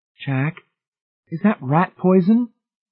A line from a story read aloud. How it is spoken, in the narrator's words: He grinned shakily